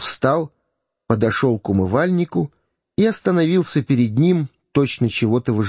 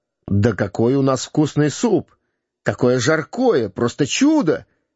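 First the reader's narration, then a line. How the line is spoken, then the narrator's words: Cheerful exclamation. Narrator (Russian): весело воскликнул Гендон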